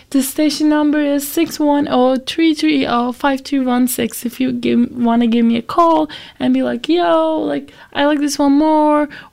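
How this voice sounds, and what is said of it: Rough, not-yet-recovered sick voice. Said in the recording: “sorry about my voice... I was sick last week... I'm just recovering from that, and that's why my voice is not that pleasing right now.”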